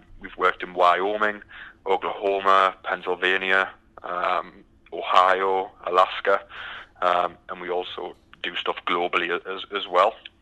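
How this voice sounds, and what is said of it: British accent. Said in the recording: “I noticed your accent is uh, very distinct ... as you can tell by the accent, I'm from the from the UK”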